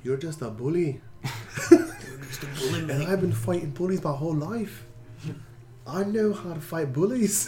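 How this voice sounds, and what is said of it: Put-on accent imitating another person. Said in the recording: “you're losing the accent”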